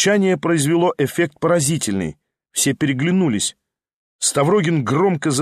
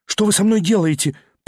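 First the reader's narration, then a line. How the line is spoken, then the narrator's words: Faltering babble. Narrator (Russian): пролепетал он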